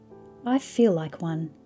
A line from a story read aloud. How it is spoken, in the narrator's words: I said, laughing